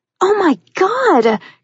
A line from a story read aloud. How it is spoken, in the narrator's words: Katrina squealed happily